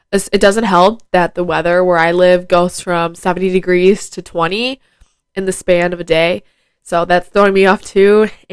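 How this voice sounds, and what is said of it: Nasal, congested voice. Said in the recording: “I sound really nasally ... I do have a little head cold and my sinuses are like running. So my throat's like sore and I'm all plugged up.”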